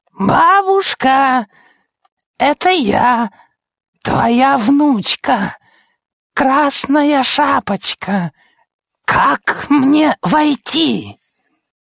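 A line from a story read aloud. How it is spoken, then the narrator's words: High thin voice. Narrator (Russian): Он спросил тонким голосом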